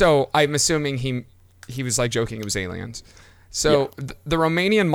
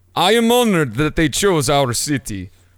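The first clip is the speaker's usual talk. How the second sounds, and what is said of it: Put-on Romanian accent. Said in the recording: “that's a Romanian accent.”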